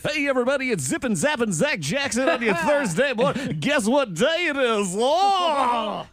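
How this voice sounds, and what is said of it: Exaggerated radio announcer voice. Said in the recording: “say something in your radio voice.”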